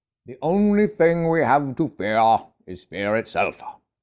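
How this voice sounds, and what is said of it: Put-on accent imitating another person. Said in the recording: “Forgive the accent there.”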